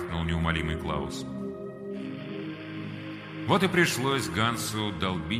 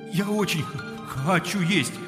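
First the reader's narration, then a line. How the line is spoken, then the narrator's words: Pleading. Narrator (Russian): взмолился Ганс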